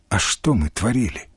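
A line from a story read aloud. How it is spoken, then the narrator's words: Quiet question. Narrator (Russian): тихо спросил Галкин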